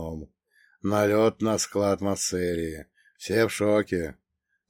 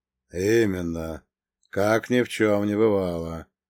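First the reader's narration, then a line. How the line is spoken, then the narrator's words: Gloomy confirmation. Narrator (Russian): мрачно подтвердил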